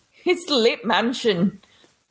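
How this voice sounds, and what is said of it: Attempted Scottish accent, sounds British. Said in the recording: “That was a little more British. I don't think we got the Scottish or Irish accent.”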